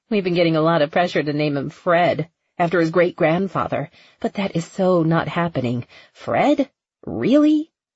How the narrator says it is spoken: The woman laughed

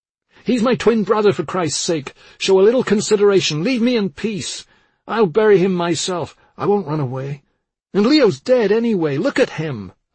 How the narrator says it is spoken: I yelled

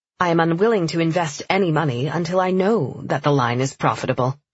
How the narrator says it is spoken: she said flatly

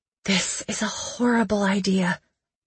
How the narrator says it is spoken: I whispered

